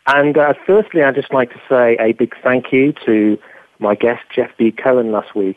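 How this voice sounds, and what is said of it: English accent. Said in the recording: “the way I said it in my English accent”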